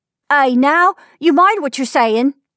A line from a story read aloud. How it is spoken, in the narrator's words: cried Anne